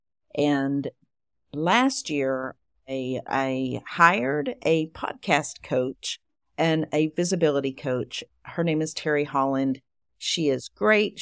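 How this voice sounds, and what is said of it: East Texas drawl. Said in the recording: “my accent ... the East Texas drawl”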